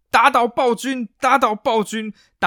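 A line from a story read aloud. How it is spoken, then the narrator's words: Crowd shouting. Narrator (Chinese): 下面所有议员全部都开始在大喊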